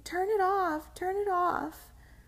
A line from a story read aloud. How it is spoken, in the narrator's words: screamed suddenly